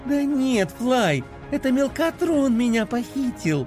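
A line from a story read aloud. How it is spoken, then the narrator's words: Joyful explaining. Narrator (Russian): Радостно объяснила Пинки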